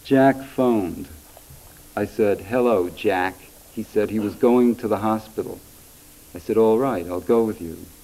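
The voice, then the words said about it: New York accent and phrasing. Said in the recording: “depends very, very much on kind of New York accent or New York musical phrasing”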